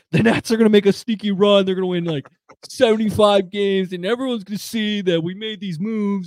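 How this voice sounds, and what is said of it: Good impression of a friend. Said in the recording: “it's a really good Billy impression.”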